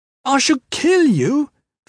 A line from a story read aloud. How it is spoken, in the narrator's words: scrub girl shouted